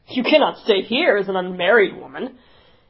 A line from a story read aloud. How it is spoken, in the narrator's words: He said then, in his great booming hearty way